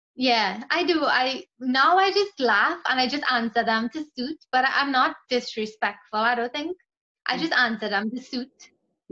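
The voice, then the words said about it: Trinidadian English accent. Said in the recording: “go look up Trinidad and Tobago online... they listen to my accent and they say I have a fake accent... you do not have a fake accent”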